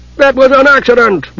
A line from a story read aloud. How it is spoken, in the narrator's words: Reorx roared